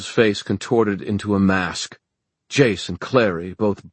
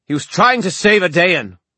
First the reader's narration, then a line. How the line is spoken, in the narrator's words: Mark shouted back